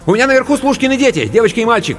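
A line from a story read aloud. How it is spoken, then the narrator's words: Rapid chatter. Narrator (Russian): протараторила Анка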